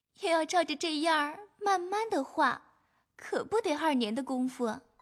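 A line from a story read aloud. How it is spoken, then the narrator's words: Uncontrollable laughing. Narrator (Chinese): 黛玉也自己掌不住笑道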